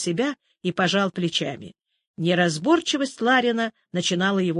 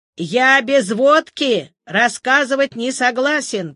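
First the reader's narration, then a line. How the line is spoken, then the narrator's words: Hoarse cheerful shout. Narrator (Russian): прокричал старец сипло и весело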